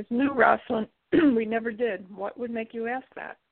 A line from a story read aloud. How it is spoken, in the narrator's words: Laughing, Claire answers